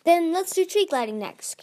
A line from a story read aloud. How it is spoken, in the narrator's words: King Gizu said cheerfully